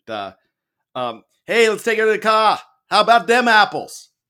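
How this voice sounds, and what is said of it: Poor attempt at a Boston accent. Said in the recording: “I cannot do a Boston accent, so I'm going to apologize. I can't do any accent... that's not getting any better”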